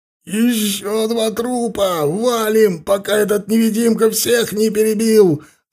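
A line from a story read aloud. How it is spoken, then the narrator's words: Hysterical yell. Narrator (Russian): заорал кто-то с истерическими нотками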